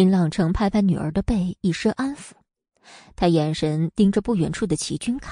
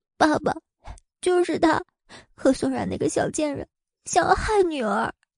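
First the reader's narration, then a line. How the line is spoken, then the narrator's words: Weak, pitiful tearful complaint. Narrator (Chinese): 林雨柔娇弱可怜的哭诉一番，说道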